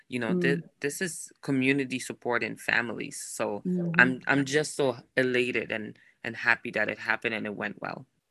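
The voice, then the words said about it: Foreign accent, not Minnesotan. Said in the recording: “you have this lovely accent, which tells folks that you are not native to Minnesota... You sound like you are from another place.”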